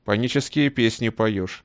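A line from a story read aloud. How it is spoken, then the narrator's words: Stern. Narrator (Russian): на всякий случай строго сказал Ивантеев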